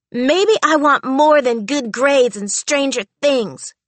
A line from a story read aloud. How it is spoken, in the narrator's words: she blurted out